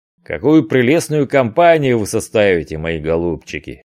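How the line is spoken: Mocking pirate exclamation. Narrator (Russian): воскликнул насмешливо один из пиратов

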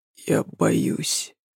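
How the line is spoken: Barely audible reply. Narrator (Russian): ответил едва слышно

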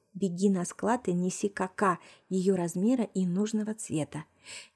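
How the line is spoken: Quiet whisper. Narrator (Russian): тихо шепнула Марусе

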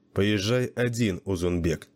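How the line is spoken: Plain. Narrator (Russian): сказал он

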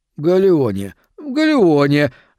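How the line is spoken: False fawning babble. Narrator (Russian): залепетал он фальшиво и заискивающе

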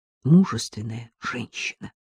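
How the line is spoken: Whisper. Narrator (Russian): прошептал Артему Каширский

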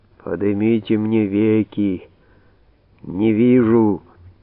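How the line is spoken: Deep underground voice. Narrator (Russian): сказал подземным голосом Вий

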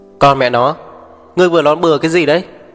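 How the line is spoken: Angry shout after pause. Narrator (Vietnamese): Mục Thiên Dương lặng đi một chút, giận dữ hét

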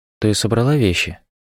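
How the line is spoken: Plain. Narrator (Russian): спросила Рен

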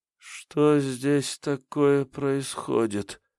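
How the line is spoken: Sleepy moan. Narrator (Russian): сонно простонала она

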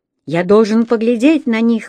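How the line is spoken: Exclaimed. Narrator (Russian): воскликнул я

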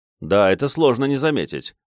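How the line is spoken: Hmph. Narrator (Russian): хмыкнул

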